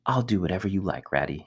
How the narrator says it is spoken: he whispered

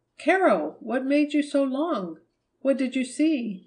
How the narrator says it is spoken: Marjorie cried

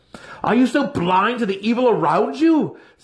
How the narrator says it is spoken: Zack yelled in his face

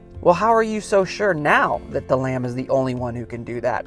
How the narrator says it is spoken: Fred asked

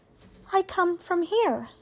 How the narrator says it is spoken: said Roz

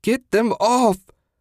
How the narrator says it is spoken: Susan wailed

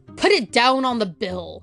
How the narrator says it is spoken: snapped her visitor

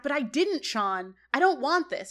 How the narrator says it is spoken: Corey yells back

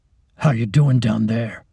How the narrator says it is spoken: he asks coldly

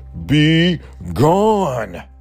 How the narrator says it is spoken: roared Bear

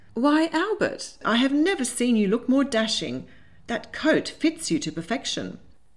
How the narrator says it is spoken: Determined to change the subject, she exclaimed

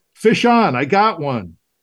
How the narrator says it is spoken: triumphantly shouting

